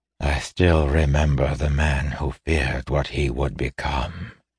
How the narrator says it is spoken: he said softly

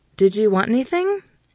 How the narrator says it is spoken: keeping my voice light

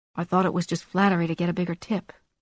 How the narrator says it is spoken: Darcy murmured

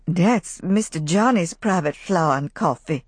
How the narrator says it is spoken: Rebecca muttered frightenedly

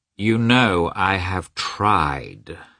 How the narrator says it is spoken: Levin replied slowly and reluctantly

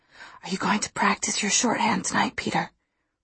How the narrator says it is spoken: I whispered to him

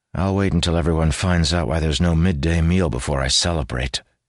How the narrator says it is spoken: he said dryly

